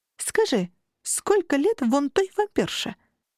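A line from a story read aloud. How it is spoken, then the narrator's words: Calm reply. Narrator (Russian): спокойно ответил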